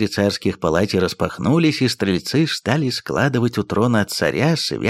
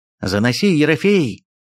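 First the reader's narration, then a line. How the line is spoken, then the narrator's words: Loud shout. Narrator (Russian): громко крикнул он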